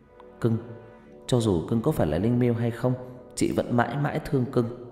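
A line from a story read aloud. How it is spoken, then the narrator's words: Whisper. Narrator (Vietnamese): thì thầm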